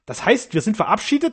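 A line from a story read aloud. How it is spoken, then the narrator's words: Angry growl. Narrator (German): grollte Frankas zornig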